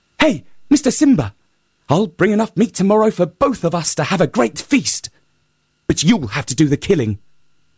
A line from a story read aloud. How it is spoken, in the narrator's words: Sungura called out